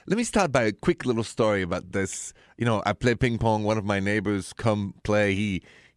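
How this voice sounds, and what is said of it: French accent. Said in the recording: “this accent of mine, it is straight from Paris”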